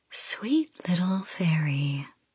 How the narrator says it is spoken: I purr, my voice melodic

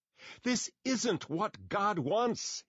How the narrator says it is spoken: he yelled

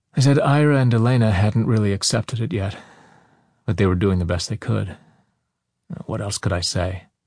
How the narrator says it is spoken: Roz sighed in reply

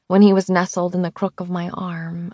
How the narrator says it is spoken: I breathed

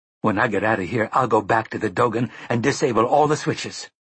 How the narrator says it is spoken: she cried

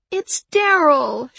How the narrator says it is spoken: she wailed

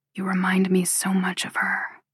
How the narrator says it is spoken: he whispers

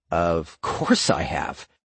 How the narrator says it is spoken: the blonde man scoffed

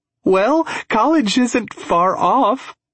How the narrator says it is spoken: she giggles

